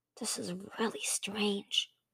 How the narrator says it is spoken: Thorn whispered to Sunny

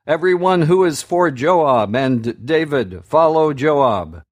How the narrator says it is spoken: One of Joab's men called out

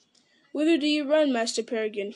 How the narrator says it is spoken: he cried

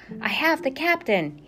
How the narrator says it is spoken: shouted over his shoulder

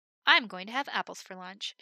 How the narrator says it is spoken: she said

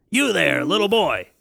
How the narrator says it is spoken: barked

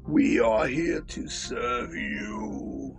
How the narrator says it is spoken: grunted Beastman

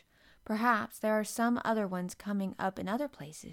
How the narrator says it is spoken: she said

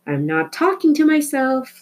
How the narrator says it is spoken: Flora shouted

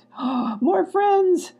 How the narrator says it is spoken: squealed Ruckus

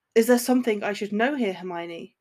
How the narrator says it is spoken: Draco asked bitterly

